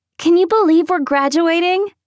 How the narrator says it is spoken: she said, false brightly

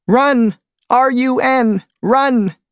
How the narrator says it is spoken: screams one particular bee

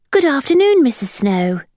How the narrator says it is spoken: said cheerfully

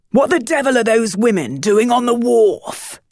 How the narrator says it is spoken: Captain Barsley roared

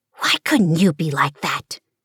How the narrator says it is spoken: mother whisper harshly

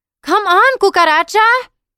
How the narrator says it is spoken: Marisol yelled

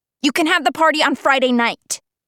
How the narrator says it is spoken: Cynthia snaps

